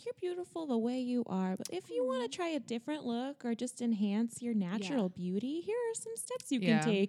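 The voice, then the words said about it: Soft, soothing voice. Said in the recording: “her voice is so soothing... That was soothing... Isn't it soothing? That was my Michelle Phan impression.”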